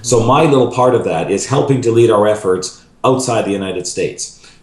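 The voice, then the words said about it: Slight Canadian accent. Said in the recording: “you might hear a little bit of a Canadian accent”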